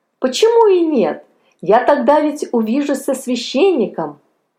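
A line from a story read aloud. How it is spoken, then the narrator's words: Joyful exclamation. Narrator (Russian): воскликнул радостно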